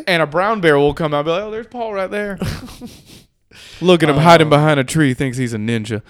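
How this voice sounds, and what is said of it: Put-on Appalachian accent. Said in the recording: “I don't know if that's an accurate Appalachian like probably accent, not. But I'm going with it.”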